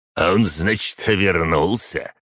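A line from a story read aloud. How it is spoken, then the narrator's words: Snort, old man. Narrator (Russian): хмыкнул старик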